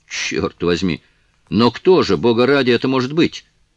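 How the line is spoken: Irritated, losing composure. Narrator (Russian): раздраженно спросил лорд Мельбурн, ибо эта загадка так подействовала на него, что он уже начал терять самообладание

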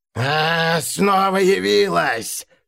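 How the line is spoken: Hoarse. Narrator (Russian): прохрипел он

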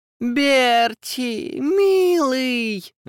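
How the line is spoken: Touched, sobbing woman. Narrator (Russian): растроганно всхлипнула она

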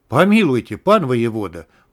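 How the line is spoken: Mock-horrified exclamation. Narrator (Russian): в притворном ужасе воскликнул царик

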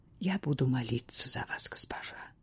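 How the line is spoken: Quiet innkeeper. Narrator (Russian): тихо сказала трактирщица

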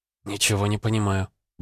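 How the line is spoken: Muttering, female healer. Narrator (Russian): бормотала лекарка

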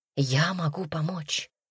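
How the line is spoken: Whispered. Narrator (Russian): прошептал царевич

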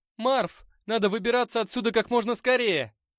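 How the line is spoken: Shout. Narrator (Russian): крикнул я другу

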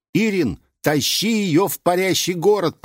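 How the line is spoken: Shout. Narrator (Russian): прокричал я

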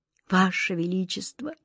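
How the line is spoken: Quiet speech. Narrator (Russian): тихо проговорил он

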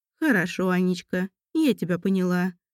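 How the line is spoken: Thoughtful older woman. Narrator (Russian): задумчиво проговорила свекровь

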